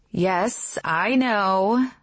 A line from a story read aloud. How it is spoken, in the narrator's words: she says with a sigh